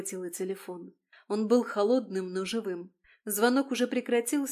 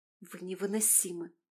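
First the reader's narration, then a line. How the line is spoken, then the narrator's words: Exasperated exhale. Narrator (Russian): выдохнула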